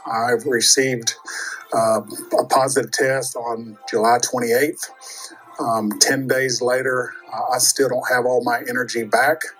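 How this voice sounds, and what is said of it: Weak, tired-sounding voice. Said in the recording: “You can probably hear in my voice, I'm just recently recovered from COVID.”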